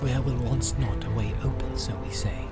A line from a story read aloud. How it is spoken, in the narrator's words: he whispered